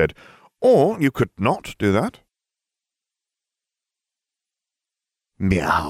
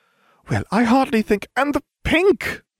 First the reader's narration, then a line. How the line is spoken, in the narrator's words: I cried